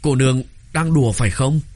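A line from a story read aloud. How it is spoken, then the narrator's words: Hearty laughter. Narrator (Vietnamese): Hình Giang Mộ cười ha hả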